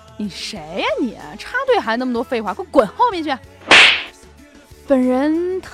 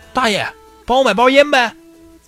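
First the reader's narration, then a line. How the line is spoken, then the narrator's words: Calling out. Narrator (Chinese): 一个新兵烟瘾又犯了就喊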